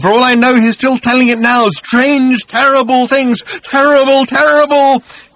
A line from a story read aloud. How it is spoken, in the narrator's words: he screamed